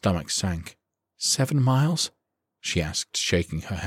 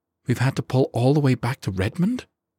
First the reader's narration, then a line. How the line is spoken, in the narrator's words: she gasped